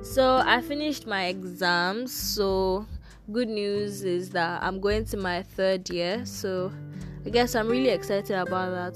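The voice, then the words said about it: Tired, low-energy voice. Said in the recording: “You probably can't hear it in my voice because I'm like really tired”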